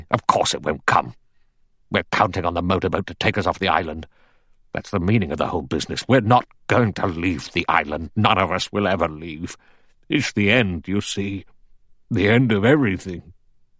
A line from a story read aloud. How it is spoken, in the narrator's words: General MacArthur said sharply